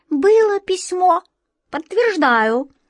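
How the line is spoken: Offended squeak. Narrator (Russian): оскорбленно пискнул кот Васька

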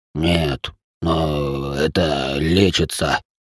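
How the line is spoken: Wheezed. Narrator (Russian): просипел Салих

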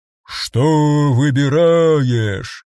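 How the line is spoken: Booming brassy voice. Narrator (Russian): спрашивал он гудящим голосом, словно говоря сквозь медную трубу

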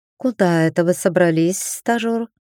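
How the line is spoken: Smiling purr. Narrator (Russian): С улыбочкой промурлыкала темная

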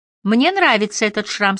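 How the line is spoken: Plain. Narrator (Russian): сказала она

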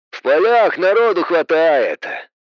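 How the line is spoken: Sighing. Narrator (Russian): Вздохнул Боб

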